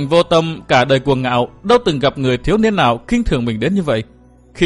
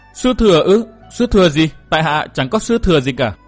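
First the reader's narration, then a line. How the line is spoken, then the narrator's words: Stammering. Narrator (Vietnamese): chàng ấp úng nói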